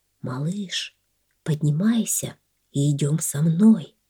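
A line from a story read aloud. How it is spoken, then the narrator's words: Soft whisper. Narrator (Russian): облако тихо прошептало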